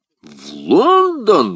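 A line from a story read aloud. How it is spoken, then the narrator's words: Exclamation. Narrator (Russian): воскликнул Портос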